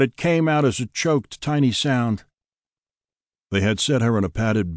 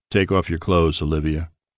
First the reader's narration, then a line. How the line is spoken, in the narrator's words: Gabriel said calmly